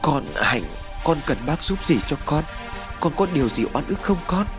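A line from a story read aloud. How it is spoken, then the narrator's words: Suppressing fear. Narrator (Vietnamese): Cố dằn sự sợ hãi, bà Năm lên tiếng nói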